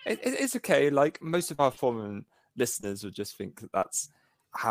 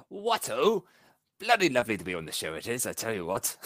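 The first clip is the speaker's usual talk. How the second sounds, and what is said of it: Put-on chatty British accent. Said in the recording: “I just feel like I need to be all British and chatty”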